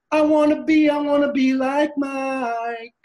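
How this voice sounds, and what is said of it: High falsetto sung line. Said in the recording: “That falsetto was perfect.”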